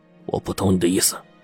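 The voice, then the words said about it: Deliberately lowered, hushed voice. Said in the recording (Chinese): “用可以压低的声音说”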